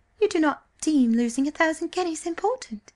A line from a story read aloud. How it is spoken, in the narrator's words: she asked wistfully